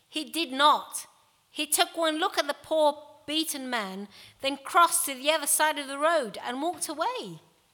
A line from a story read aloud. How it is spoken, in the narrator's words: said Jesus firmly